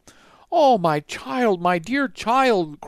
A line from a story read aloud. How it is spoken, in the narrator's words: cried poor Midas